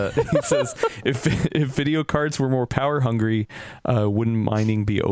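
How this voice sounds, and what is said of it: Usual voice. Nothing is said of it.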